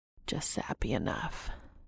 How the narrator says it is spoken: Cass whispers into the top of Dean's head

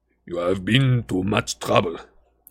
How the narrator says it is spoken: said in a deep voice

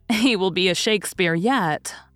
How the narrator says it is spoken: said Aunt Jo, laughing as if she would die for this poetic gem

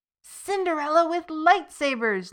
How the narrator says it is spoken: Lucas cried

